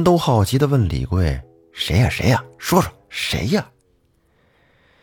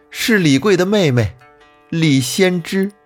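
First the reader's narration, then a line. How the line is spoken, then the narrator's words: Loud, wry. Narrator (Chinese): 秦氏苦笑了一下，大声说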